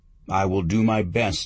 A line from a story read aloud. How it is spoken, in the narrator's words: I said